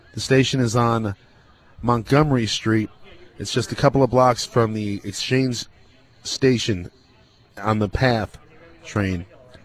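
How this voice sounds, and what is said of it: Slurred speech. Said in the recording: “I'm slurring my words”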